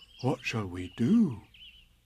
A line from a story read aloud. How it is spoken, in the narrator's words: said Pooh solemnly